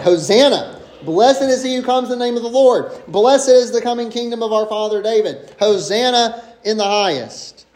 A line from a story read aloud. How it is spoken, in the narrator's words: Those who went before, those who followed, shouted